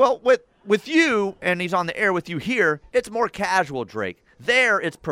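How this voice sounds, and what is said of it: Usual voice. Nothing is said of it.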